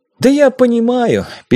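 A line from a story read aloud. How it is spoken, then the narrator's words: Sad sigh. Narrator (Russian): печально вздохнул я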